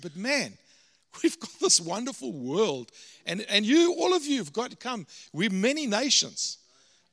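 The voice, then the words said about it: South African accent. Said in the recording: “I'm a Canadian with a South African accent.”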